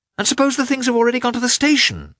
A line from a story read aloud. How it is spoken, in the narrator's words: exclaimed in despair